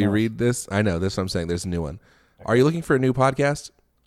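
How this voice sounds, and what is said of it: Usual voice. Nothing is said of it.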